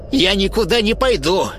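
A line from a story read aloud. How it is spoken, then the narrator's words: Sharp old woman. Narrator (Russian): резко ответила старуха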